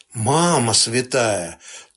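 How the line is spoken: Languid sigh. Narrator (Russian): томно вздохнула невзгода

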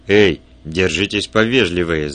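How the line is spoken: Growling. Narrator (Russian): зарычал

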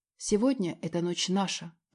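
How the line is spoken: Whisper. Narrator (Russian): прошептала ему

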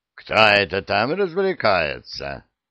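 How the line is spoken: Grumbled. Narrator (Russian): проворчал Вулф

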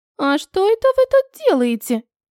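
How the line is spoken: Sudden squeak. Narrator (Russian): Пискнул кто-то сбоку

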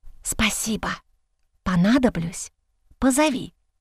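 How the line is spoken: Whisper. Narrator (Russian): послышался шепот

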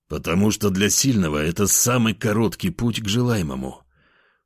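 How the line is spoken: Growl. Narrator (Russian): прорычал я

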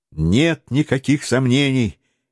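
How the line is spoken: Exclamation. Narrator (Russian): воскликнул Гленарван

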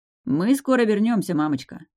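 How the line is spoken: Snide reply. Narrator (Russian): ехидно ответил Деян

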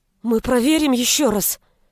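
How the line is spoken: Frightened young woman. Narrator (Russian): испуганно сказала девушка

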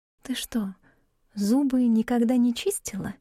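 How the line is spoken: Insinuating question. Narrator (Russian): вкрадчиво спросила Габриэль

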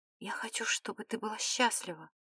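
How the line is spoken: Whispered. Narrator (Russian): прошептал

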